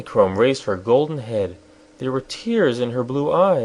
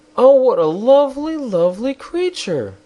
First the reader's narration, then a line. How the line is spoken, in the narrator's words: the girl exclaimed